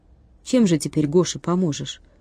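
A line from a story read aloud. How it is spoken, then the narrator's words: Quiet question. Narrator (Russian): тихо спросил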